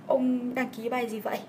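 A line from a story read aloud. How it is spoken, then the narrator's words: Trembling. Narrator (Vietnamese): Nó run run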